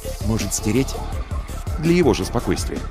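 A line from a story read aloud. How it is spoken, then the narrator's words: Low voice. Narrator (Russian): Алексей спросил вполголоса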